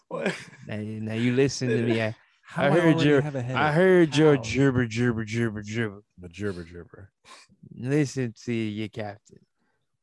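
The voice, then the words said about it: Drunk cruise ship captain voice. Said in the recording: “You sound like a drunk captain of a Princess Cruise.”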